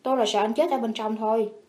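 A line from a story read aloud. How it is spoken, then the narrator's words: Angry. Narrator (Vietnamese): Trầm Hoàng tức giận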